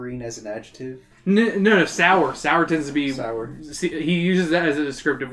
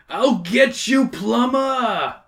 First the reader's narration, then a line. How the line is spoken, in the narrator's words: Bowser yells